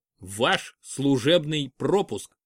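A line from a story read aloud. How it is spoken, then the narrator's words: Stern. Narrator (Russian): строго сказал он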